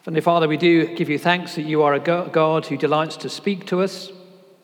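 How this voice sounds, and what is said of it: British accent. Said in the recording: “you'll hear from my accent, I'm not from around these parts ... the same strange British accent”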